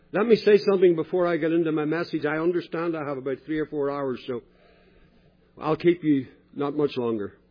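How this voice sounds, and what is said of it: Speaks with a noticeable accent. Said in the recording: “you probably realize my accent hasn't changed. And at this stage, it's very unlikely that I will.”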